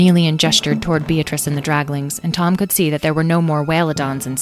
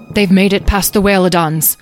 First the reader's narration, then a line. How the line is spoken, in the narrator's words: the man, Abner, exclaimed